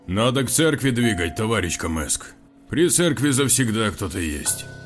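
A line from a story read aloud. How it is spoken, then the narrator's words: Deep bass voice. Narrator (Russian): пробасил ввалившийся следом ординарец Витька Киреев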